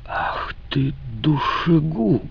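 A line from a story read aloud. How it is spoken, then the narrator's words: Hiss. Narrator (Russian): прошипел он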